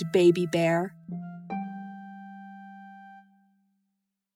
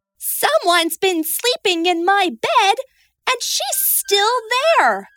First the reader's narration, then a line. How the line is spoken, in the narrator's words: cried Baby Bear